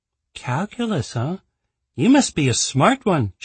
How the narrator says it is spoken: she said with a teasing note in her voice

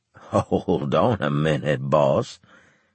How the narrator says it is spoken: Claver said, chuckling

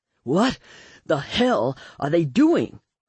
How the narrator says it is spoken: Rufus panted, his dark eyes pained

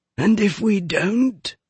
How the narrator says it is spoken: asked Hyde in his rasping voice

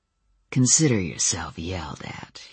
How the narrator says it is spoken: he purred

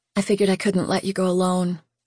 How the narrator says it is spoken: she whispered

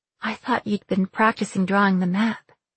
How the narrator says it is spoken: I said softly

